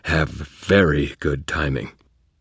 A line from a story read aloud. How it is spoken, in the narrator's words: I groaned